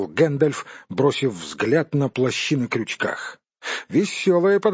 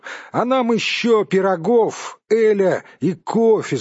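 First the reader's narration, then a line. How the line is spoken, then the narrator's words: Shouted in chorus. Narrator (Russian): закричали остальные гномы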